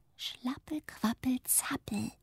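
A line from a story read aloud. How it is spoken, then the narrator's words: Murmured. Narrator (German): murmelt Zuckerguss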